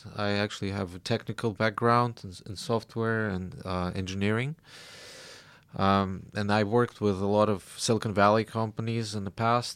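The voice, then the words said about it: Russian accent with American, Australian touches. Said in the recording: “you picked up a little bit of the American accent in there too ... now Australian accent already making its way. But still, it's all through the Russian one.”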